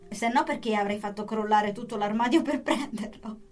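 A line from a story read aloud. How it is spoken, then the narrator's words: Laughing. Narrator (Italian): rise Lisa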